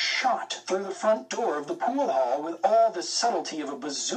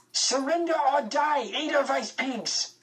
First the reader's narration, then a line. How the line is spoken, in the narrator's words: he screamed